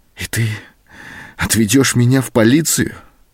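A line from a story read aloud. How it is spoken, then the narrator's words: Trembling voice. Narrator (Russian): спросила она дрогнувшим голосом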